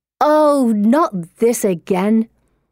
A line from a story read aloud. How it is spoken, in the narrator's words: Anne snarls